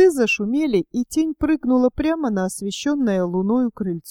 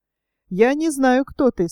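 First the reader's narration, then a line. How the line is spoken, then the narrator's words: Laughing. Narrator (Russian): смеясь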